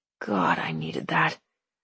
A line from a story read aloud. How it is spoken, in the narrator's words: Hugh mumbles